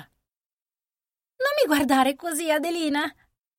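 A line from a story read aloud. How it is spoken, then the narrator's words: Cheerful exclamation. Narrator (Italian): esclamò con una nota gaia nella voce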